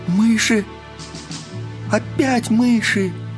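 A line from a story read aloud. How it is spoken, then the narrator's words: Frightened exclamation. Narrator (Russian): в испуге воскликнула Мари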